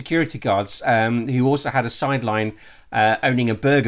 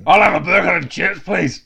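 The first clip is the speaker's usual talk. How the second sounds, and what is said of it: Bad put-on Scottish accent. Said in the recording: “Worst Scottish accent ever.”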